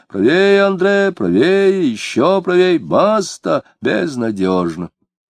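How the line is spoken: Muffled distant voice. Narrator (Russian): С реки кто-то невидимый глухо говорил ему

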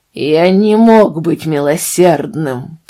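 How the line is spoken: Sudden furious growl. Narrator (Russian): прорычал с внезапной яростью в тоне

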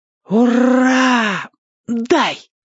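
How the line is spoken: Joyful breathless exclamation. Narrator (Russian): радостно выдохнул драчун

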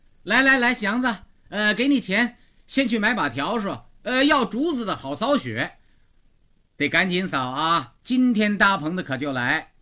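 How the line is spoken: Calling outward. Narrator (Chinese): 虎妞往外叫他

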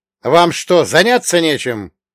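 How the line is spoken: Bark. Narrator (Russian): гаркнул я на любопытных

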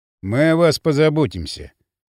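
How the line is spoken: Officer's dry reply. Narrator (Russian): сухо ответил офицер

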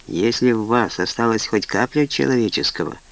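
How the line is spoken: Quiet. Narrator (Russian): тихо сказал Тревор

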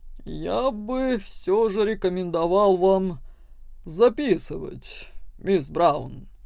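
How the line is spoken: Displeased, through teeth. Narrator (Russian): профессор процедил

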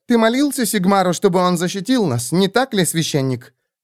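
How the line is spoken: Sharp interrupting voice. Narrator (Russian): перебила Кэт резким голосом

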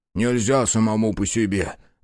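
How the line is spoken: Sighing. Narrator (Russian): вздохнул Фрол

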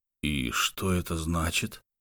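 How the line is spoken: Hoarse voice. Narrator (Russian): хрипло произнес Лук

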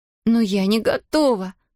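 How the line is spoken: Sobbing. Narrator (Russian): всхлипнула Зия

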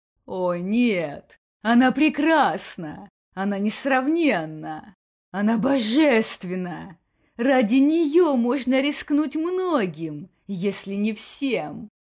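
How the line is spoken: Delirious purring. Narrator (Russian): словно в бреду замурлыкал Бакс

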